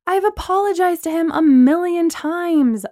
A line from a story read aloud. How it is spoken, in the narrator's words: I said angrily